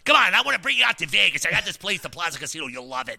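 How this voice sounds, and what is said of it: Imitates another person's voice. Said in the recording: “that's my impersonation. He's like a Joe Pesci ... I picture with that voice, I picture him with a cigar”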